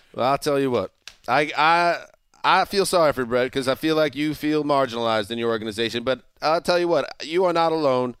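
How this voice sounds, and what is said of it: Put-on Southern accent. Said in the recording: “I don't know why I speak with a Southern accent.”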